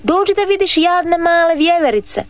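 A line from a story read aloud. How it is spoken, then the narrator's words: Shouting boy. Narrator (Croatian): viknu dječak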